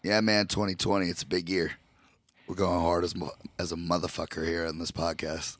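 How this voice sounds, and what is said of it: Hoarse, strained voice. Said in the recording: “my voice is fucking shot to begin the year ... you were pretty sick ... my voice is still recovering”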